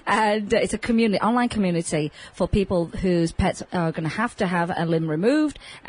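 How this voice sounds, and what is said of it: Speaks with a noticeable accent. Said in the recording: “I'm having a hard time with this because of my accent. Tripods. That's how I would say it.”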